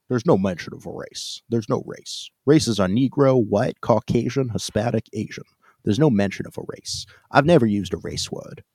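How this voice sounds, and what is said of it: Imitates another person's voice. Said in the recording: “in my best Don Blankenship impression.”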